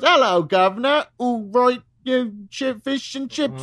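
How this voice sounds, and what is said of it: Put-on Cockney accent. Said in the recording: “I'm going to speak in a Cockney accent.”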